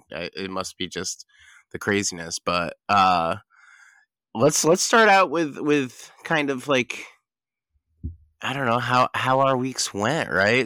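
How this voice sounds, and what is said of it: Hoarse, fading voice. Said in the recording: “I'm like losing my voice all of a sudden.”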